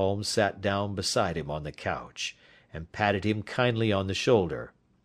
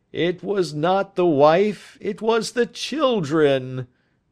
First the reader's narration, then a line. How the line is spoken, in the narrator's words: groaned the prisoner